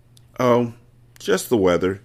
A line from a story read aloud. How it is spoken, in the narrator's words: said Miss Catherine